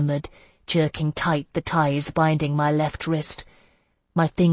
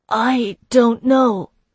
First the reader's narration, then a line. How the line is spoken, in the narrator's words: I gasped